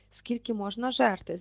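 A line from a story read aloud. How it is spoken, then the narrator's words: Surprised whisper. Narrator (Ukrainian): здивовано прошепотів Рон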